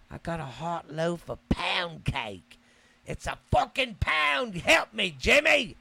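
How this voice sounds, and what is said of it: Put-on English accent. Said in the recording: “Hope I'm doing that accent right. I didn't know that over there in England their accents are different. ... My bad if I did that one wrong.”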